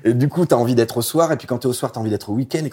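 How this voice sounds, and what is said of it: Regional French accent. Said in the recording (French): “c'est mon accent ça”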